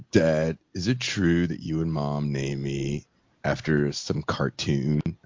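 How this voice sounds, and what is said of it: Deep California surfer accent. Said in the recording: “His voice is all deep ... the California surfer accent”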